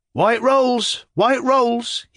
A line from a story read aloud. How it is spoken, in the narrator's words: cried